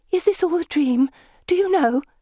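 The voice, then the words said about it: Worried voice. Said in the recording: “she asks in a worried voice”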